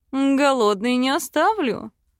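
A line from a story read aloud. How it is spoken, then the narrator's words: Seductive purr. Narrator (Russian): Мурлыкнул в губы искуситель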